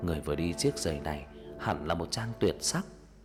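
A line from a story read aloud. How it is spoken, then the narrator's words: Dreamy mumble. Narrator (Vietnamese): Nhà vua như trong cơn mê lẩm bẩm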